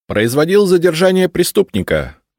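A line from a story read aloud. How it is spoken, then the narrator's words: Brisk, cheerful report. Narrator (Russian): бодро отрапортовал Миша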